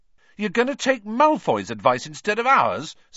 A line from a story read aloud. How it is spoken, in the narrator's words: said Ron furiously